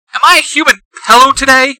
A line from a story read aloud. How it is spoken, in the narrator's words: She shouts